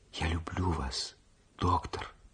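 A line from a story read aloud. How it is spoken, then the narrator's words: Whisper. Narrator (Russian): прошептала она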